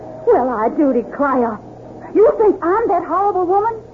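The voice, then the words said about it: Woman speaking in put-on accent. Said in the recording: “clever at using disguises and assorted accents ... capable of many disguises and accents”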